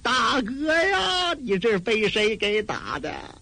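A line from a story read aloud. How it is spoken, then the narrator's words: Crying. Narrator (Chinese): 罗凤春陪着哭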